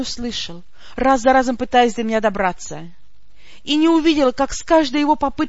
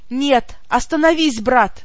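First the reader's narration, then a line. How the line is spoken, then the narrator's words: Silent desperate cry. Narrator (Russian): молча крикнула я в отчаянии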